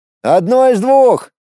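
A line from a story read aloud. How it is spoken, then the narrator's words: Shouted reply. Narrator (Russian): закричал я в ответ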